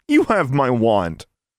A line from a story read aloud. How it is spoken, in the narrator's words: Alexandra said angrily